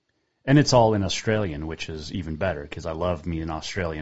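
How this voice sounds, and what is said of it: Scottish accent. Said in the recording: “From this Scottish guy”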